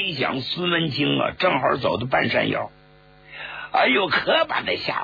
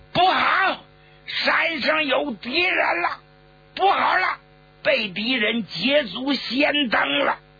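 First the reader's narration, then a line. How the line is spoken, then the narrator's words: Wounded, shouting loudly. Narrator (Chinese): 参谋长也中了弹了，大声喊道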